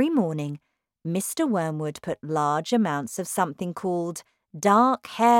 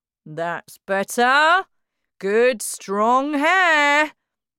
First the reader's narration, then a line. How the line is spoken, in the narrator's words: Matilda heard him say loudly to himself